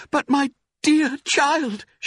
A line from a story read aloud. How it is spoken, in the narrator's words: cried